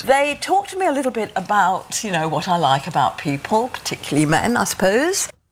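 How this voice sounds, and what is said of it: British accent. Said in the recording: “This is very much a British accent.”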